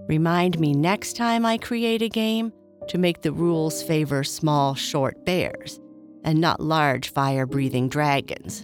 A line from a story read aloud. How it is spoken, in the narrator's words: Boo Boo replied